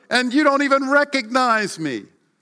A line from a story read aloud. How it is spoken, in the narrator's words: cried Pinocchio